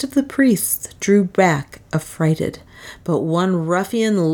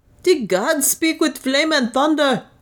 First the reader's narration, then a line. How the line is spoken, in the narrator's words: cried